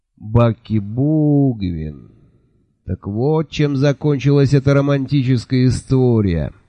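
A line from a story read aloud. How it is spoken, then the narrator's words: Thoughtful drawl. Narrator (Russian): задумчиво протянул Джуфин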